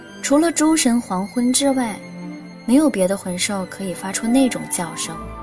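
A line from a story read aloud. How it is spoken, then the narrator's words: Cold interruption. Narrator (Chinese): 银尘冷冷地打断他的话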